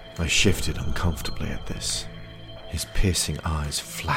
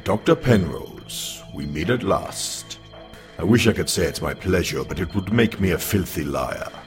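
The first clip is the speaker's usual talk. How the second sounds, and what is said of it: Deep sonorous voice, exotic accent. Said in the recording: “his voice sonorous like great bronze bells in a storm, with an exotic accent I could not place”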